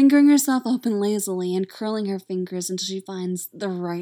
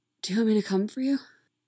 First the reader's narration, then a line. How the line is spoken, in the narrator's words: She asks breathlessly, voice little more than a whisper